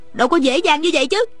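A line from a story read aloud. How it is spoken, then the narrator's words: Shrieking. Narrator (Vietnamese): Ôn Thanh thét lên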